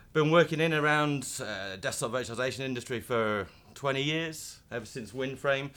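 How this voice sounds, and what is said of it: Northern English accent. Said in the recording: “as you can possibly tell from the accent, if you're British, that uh, I don't come from there. I come from up, up north in uh, in Blackburn.”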